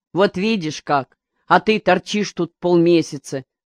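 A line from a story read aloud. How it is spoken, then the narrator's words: Angry. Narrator (Russian): сказал Мигдя сердито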